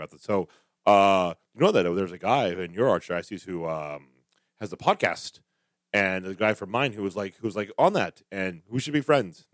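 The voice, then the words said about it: Imitates another person's voice, clipped. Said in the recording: “this is my Schnurr impression ... That's a terrible Schnurr impression ... Does he speak very like segmented? ... he's very short and to the point”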